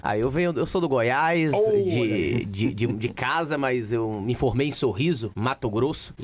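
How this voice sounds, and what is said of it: Regional Brazilian Portuguese accent. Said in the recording (Portuguese): “E pelo sotaque, você vem da onde?”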